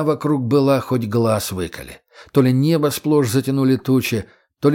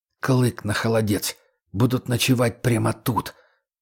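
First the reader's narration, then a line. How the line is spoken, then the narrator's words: Hissed through teeth. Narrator (Russian): прошипел сквозь зубы егерь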